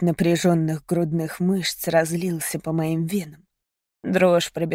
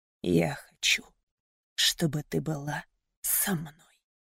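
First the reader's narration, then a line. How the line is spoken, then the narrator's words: Hoarse determined whisper. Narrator (Russian): Мейсон прошептал хриплым и решительным тоном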